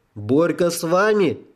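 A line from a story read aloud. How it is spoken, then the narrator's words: Yelling. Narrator (Russian): завопила Юлька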